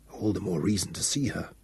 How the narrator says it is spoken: muttered Raish

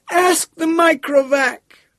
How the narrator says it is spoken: wailed Gerardette One

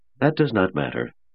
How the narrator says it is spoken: said Andrew calmly

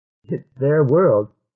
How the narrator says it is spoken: said Gottstein, chuckling

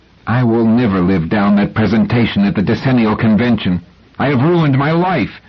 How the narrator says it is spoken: He said angrily

